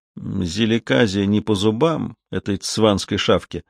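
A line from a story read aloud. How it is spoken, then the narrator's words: Whisper in ear. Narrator (Russian): Один из них прошептал на ухо соседу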